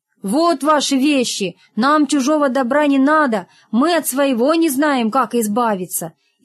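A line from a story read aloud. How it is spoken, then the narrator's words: Loud, deliberate speech. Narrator (Russian): Рогов смело громко, чтобы японец понял, сказал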